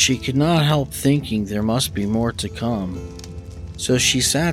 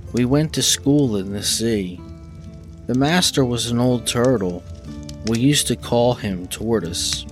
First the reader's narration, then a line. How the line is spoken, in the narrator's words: the Mock Turtle went on at last, more calmly, and still sobbing a little now and then